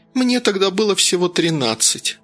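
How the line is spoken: Feigned meek sigh. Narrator (Russian): притворно кротко вздохнула Женя

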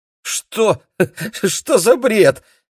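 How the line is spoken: Nervous laughter. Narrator (Russian): нервно расхохотался Вадим

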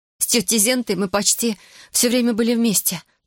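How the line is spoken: Hurried telling. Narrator (Russian): торопливо рассказывала Берута

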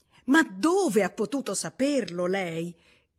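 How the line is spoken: Exclaimed. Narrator (Italian): esclamò Miss Bates

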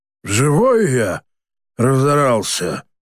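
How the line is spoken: Old man's grumble. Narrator (Russian): буркнул старик

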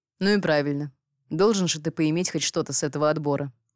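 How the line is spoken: Snorting count. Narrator (Russian): фыркнул граф

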